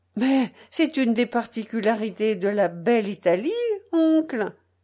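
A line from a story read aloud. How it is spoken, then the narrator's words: Young woman exclaiming. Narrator (French): s'exclame la jeune femme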